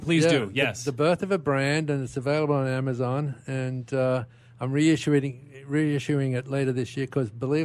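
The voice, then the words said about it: Retains a non-local accent. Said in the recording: “Never lost the accent.”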